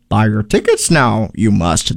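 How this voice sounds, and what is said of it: Poor imitation of Yoda's voice. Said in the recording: “my really crappy Yoda impression”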